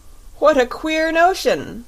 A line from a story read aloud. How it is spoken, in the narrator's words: cried the Fox King, beginning to laugh